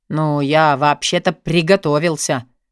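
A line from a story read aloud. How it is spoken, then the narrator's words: Pirate's snort. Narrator (Russian): фыркнул пират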